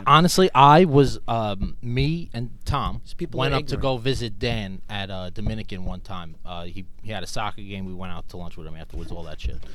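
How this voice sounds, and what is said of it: New York Bronx accent. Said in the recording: “this sounds like a Boston accent to you ... this is a Bronx accent ... I've been called Brooklyn before too, but New York in general”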